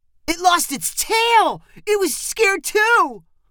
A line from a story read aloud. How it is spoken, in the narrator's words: one of Heather's brothers shouted